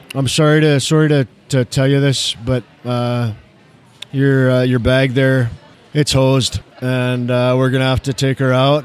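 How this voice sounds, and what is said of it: Put-on Canadian accent. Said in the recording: “I fall into the Canadian accent pretty good ... might be a solid one for the Northwest”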